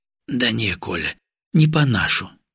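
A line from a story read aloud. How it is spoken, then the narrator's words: Heavy sigh. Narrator (Russian): тяжело вздохнул Гаврилов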